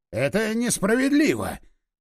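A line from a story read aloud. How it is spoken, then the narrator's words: Hissing. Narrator (Russian): зашипел Вячеслав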